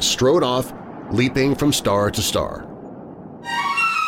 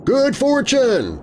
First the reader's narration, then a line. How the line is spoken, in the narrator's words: his brothers shouted back in the jargon of greatest friendship